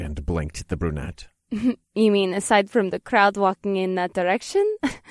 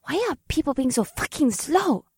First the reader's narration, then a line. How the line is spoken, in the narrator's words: Akira hissed under her breath